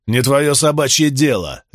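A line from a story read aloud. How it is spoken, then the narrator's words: Warrior barking. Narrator (Russian): рявкнул воин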